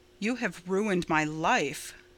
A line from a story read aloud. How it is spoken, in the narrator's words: said Roy bitterly